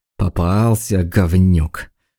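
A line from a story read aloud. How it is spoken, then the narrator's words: Through clenched teeth. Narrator (Russian): процедил сквозь зубы Одинцов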